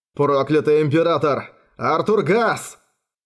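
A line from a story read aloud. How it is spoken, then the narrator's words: Loud exclamation. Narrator (Russian): Громко воскликнул Стефан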